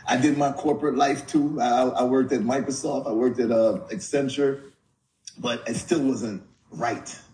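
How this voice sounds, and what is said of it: New York accent. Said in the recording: “I hear your accent in New York. I don't hear Jamaica”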